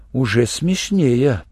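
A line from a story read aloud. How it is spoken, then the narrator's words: Muttered. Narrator (Russian): пробормотал Шурик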